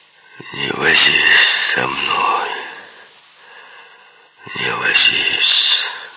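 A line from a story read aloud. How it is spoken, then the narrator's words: Muffled, hollow voice. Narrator (Russian): глухо проговорил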